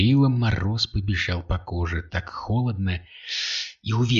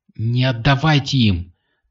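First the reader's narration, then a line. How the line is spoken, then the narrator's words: Hurried shout. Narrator (Russian): только и успела крикнуть охранница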